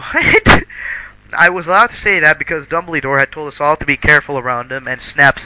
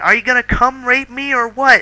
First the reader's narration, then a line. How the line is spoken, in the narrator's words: I yelled